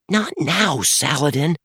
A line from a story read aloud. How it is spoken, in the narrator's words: Dan whispered